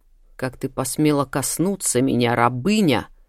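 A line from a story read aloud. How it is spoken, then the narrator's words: Hiss. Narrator (Russian): зашипела Ария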